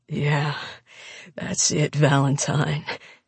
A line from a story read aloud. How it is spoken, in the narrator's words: Logan ... groans out